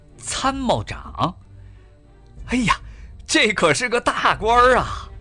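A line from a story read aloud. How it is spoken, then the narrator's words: Beaming delight. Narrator (Chinese): 笑开了花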